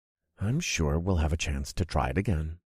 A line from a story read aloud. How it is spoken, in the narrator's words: I said in a comforting voice